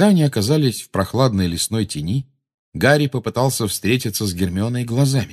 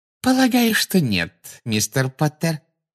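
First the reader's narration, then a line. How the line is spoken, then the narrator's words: Sugary sweet voice. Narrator (Russian): сладким голосом проговорила Амбридж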